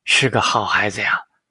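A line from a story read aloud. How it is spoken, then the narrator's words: Admiring sigh. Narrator (Chinese): 杨振华感叹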